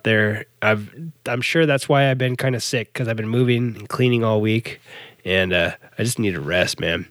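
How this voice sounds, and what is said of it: Worn, rough sick voice. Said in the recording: “my voice is getting crummy already just from talking for 49 minutes”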